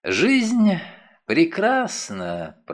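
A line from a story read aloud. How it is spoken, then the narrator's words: Cooing. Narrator (Russian): проворковал он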